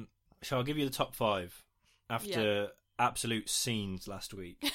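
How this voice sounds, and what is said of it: Usual voice. Nothing is said of it.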